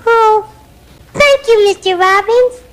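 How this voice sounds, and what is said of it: Elmo puppet character voice. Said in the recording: “doing the Elmo voice ... the puppeteer and the voice for Elmo”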